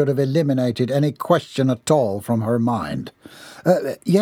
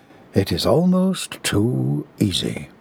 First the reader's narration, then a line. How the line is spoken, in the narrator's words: he murmured into the smoke